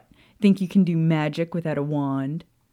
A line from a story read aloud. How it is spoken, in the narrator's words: Hermione chuckled again